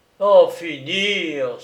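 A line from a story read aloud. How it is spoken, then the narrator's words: Inspector exclaiming. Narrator (French): s'exclama l'inspecteur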